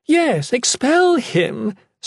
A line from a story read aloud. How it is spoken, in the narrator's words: Serena cackled, still covering her mouth